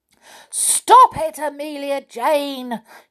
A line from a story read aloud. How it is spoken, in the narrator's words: shouted the clockwork clown angrily